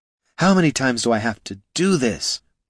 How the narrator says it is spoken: breathed Laruna

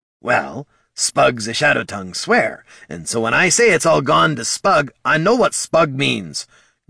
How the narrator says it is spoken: Gorm barked

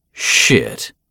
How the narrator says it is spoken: muttered

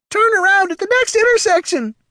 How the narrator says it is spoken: screamed the gazer

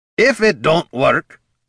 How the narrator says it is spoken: Gorm repeated loudly

